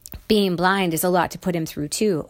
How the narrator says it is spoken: said firmly

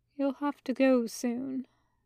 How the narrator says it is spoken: murmured

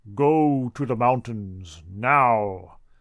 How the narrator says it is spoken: the real God in my head, voice booming in James Earl Jones timbre

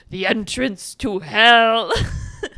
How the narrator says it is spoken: Halloran, the priest, just like growling

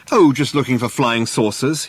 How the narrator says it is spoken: he would joke

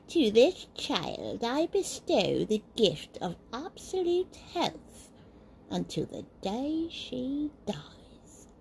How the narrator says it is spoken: she cackled

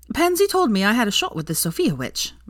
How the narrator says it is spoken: Veronica said happily

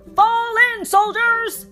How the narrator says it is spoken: He shouted

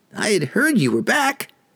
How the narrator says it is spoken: squeaked a diminutive chap appearing as a human boy, not yet into adolescence

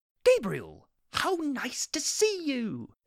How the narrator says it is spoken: Aziraphale exclaimed

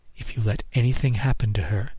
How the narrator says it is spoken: she whispered in my ear

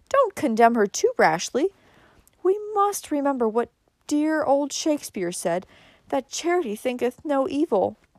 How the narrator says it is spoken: said soothingly

